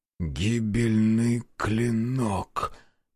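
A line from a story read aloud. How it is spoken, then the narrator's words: Hoarse wheeze. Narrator (Russian): прохрипел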